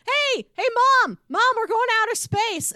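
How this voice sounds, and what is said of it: Yelling. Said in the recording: “she's yelling”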